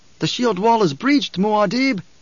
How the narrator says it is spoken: shouted

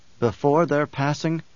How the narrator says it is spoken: Paul whispered

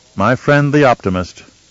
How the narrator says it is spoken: Leto said

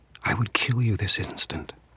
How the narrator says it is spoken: she whispered

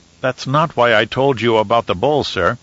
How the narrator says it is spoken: Duncan said

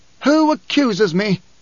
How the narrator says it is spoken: Corba mustered a pitiful air of pomposity to plead

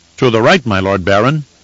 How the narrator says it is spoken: said in a firm voice

